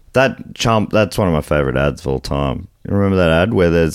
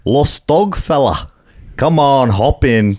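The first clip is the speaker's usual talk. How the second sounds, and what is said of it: Put-on Scottish accent. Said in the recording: “he says it with a Scottish accent ... I reckon the Scottish listeners will agree that I did fantastically”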